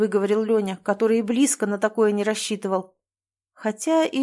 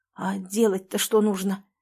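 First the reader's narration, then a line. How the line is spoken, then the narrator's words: Hoarse question. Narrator (Russian): хрипло спросил Леня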